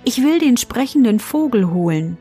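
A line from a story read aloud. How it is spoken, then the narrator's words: Plain answer. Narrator (German): antwortete sie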